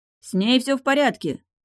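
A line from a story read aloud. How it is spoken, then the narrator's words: Guard shouting after. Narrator (Russian): кричал ему в спину охранник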